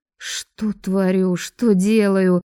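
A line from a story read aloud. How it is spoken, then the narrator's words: Muttered grumbling. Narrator (Russian): ворчала я себе под нос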